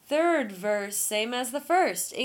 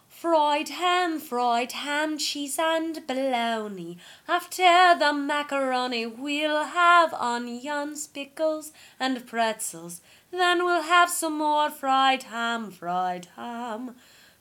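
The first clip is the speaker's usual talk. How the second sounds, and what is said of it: Put-on English accent. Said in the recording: “English accent, a little bit worse.”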